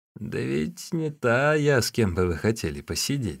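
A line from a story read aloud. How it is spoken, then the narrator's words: Old woman guffawing. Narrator (Russian): захохотала старая Ван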